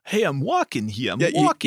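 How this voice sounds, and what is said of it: Bad Brooklyn mobster accent. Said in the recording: “a Brooklyn or a Jersey or anything in that space accent. And it's pretty hysterically bad ... it's bad. It's a horrible accent.”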